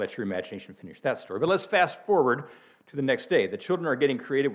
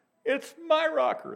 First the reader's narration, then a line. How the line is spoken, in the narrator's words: wail in unison